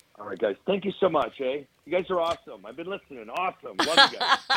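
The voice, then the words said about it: Canadian accent. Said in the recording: “I love the Canadian accent.”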